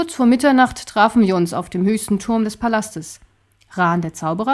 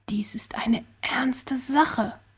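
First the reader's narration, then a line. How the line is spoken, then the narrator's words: Spoken softly. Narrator (German): sprach er leise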